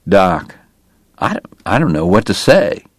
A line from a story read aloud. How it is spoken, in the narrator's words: Wyatt murmured